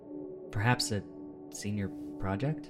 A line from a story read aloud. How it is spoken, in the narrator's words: He muttered